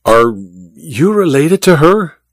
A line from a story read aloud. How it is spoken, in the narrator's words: Olga sighed dramatically